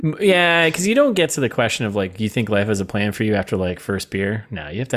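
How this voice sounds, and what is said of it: Usual voice. Nothing is said of it.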